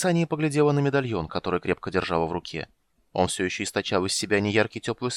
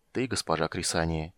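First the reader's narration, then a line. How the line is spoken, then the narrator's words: Quiet. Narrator (Russian): тихо ответил Карамон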